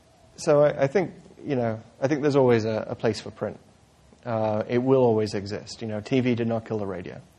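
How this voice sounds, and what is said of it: British accent. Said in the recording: “you can tell from my accent, I'm not from around here. I grew up in the UK”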